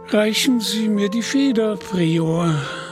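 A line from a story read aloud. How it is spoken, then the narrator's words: Sighing. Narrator (German): seufzte der Bischof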